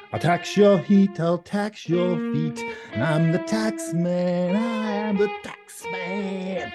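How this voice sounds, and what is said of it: Bad sung imitation of a band. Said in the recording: “My worst Beatles imitation. ... That was really bad.”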